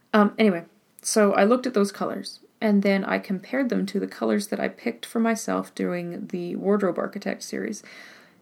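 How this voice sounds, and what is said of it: Hoarse, fading voice. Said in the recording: “I'm losing my voice a little bit, but hopefully it's not too gross sounding.”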